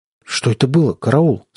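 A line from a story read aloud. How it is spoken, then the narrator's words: Trembling voice. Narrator (Russian): спросил я вздрагивающим голосом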